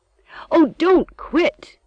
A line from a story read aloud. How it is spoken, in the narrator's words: Emily cried